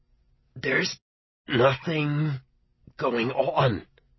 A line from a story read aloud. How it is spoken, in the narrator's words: he said through clenched teeth